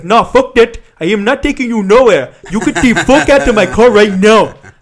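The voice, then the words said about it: Put-on heavy African accent. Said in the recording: “he had, like, a really heavy African accent. That's my attempt at that.”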